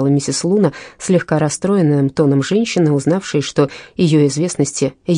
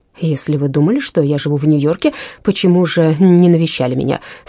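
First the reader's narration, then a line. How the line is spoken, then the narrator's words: Plain. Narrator (Russian): спросила она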